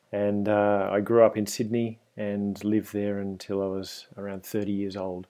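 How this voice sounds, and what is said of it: Australian accent. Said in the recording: “you can probably hear from my accent if you're listening at home that I'm Australian”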